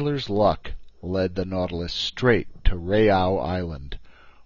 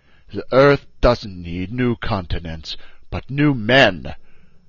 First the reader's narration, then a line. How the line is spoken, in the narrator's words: he answered me coldly